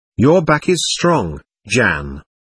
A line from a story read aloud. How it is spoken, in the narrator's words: answered Zar